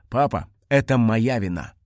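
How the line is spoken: Calm. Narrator (Russian): спокойно сказал он

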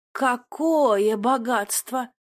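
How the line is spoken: Admiring drawl. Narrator (Russian): Восхищенно протянула Эйри

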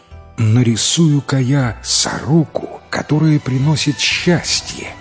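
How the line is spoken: Said joyfully. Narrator (Russian): радостно сказал Ма Лян

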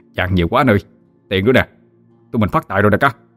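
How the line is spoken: Loud laughter. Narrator (Vietnamese): Gã cười lớn

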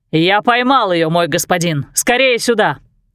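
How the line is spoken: Man's loud shout. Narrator (Russian): громко закричал мужчина

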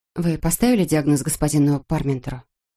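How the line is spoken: Plain. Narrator (Russian): спросила она

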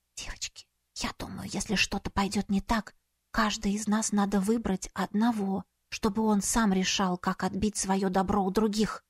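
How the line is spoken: Whisper. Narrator (Russian): прошептала нам обеим

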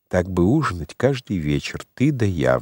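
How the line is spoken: Sighing. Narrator (Russian): вздохнула Марта

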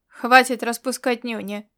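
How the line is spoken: Furious bark. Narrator (Russian): рявкнул Ирвинг, выведенный из себя

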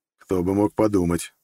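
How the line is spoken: Snorting. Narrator (Russian): фыркнул я

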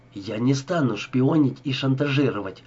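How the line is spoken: Plain. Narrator (Russian): сказала Ева

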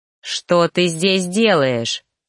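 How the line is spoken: Angry growl. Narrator (Russian): рыкнул на нее, желая сорвать свою злость хоть на ком-то

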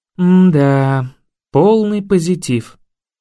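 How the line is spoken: Sigh. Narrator (Russian): вздохнула Вика

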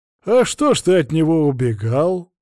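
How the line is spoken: Chuckling. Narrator (Russian): хохотнул поп

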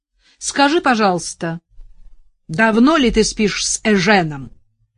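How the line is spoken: Mother crying out very loudly. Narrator (Russian): Мать вскрикнула так громко, что Настя отвела трубку от уха

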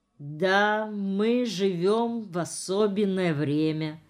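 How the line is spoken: Slow speech. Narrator (Russian): медленно проговорил Ефим Иванович

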